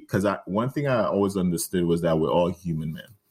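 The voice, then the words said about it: Man speaking with a foreign accent. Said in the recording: “you're talking to a black man with an accent in America”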